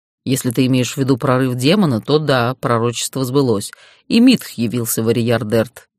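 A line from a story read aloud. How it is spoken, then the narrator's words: Plain. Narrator (Russian): ответил Дейтар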